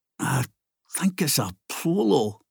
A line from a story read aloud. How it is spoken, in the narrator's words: Ginger muttered